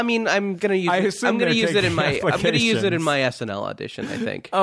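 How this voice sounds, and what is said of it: Usual voice. Nothing is said of it.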